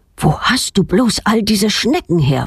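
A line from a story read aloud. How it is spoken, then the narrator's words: Plain. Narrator (German): fragt er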